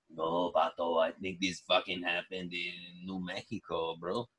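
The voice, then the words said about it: Danny Trejo impression. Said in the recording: “You're doing the voice. ... I do impressions. ... It's an impression of, what's that guy? ... Danny Trejo. That's who I'm”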